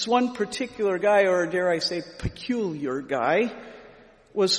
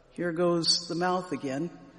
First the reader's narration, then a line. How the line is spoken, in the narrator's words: mutter under my breath